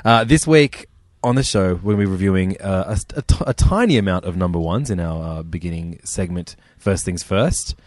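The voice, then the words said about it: Australian accent. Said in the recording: “We are in Sydney, obviously. In case you can't tell. ... By our accents.”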